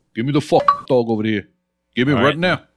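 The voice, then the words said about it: Exaggerated New York accent. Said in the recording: “Well, there it is. That's the New York accent.”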